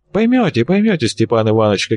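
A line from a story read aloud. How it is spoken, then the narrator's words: Strange, ambiguous tone. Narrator (Russian): каким-то непонятным тоном пообещал Венцлов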